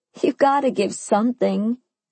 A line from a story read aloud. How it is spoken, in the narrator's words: I pleaded